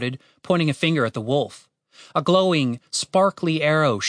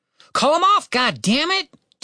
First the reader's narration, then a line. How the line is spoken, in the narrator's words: Tim shouted at his sister